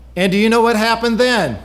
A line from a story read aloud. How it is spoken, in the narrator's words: Susie asked loudly